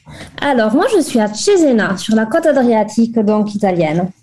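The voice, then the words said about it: Southern French Toulouse accent. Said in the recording (French): “Tu es toulousaine, d'où ce petit accent ensoleillé ... Il est authentique.”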